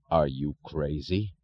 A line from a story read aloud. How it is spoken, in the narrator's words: Thompson asked, his voice unnaturally low